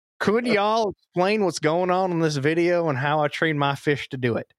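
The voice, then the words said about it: Put-on Southern US accent. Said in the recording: “I feel like I should read this in the Southern accent.”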